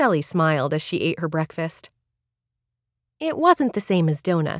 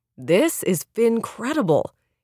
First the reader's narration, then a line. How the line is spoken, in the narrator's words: exclaimed